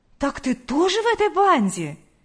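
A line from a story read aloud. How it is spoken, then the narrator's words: Exclaimed. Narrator (Russian): воскликнула Лидия Гавриловна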